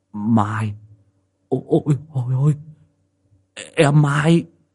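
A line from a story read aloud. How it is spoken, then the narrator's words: Astonished stammer. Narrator (Vietnamese): há hốc cả mồm, mắt trợn lên mà lắp bắp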